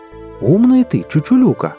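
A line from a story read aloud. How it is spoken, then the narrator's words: Exclamation. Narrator (Russian): воскликнул кузяка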